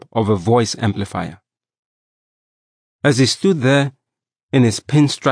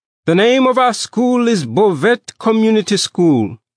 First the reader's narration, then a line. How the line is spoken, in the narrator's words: shouted the principal, trying his best to raise his voice above the storm of noise